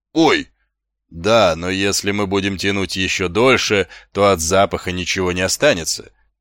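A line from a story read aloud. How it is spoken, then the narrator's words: Plain. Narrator (Russian): сказала госпожа Овниц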